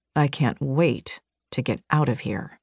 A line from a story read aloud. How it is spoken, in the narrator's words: he muttered